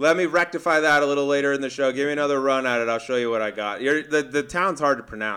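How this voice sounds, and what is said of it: Usual voice. Nothing is said of it.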